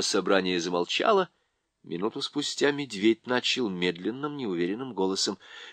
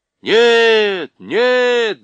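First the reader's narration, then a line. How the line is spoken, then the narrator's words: Many animals shouting. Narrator (Russian): закричало большинство зверей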